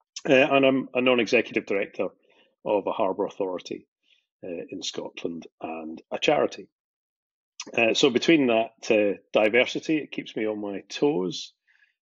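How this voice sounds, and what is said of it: Scottish accent. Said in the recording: “based in Scotland, as you might be able to guess from the accent”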